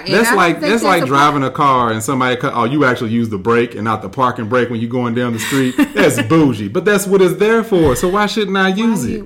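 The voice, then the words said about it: Yelling, worked-up loud voice. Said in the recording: “Why are you yelling? Why are you yelling?”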